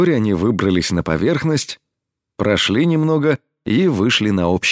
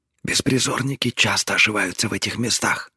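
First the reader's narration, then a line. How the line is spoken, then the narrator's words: Quiet. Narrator (Russian): так же тихо ответила она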